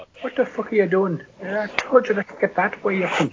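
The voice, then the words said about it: Attempted Irish accent. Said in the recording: “attempt at an Irish accent”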